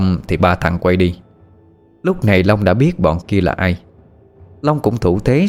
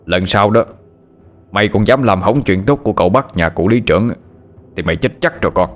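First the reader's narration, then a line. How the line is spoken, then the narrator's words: Harsh threatening tone. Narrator (Vietnamese): chúng nó gằn giọng hăm dọa Long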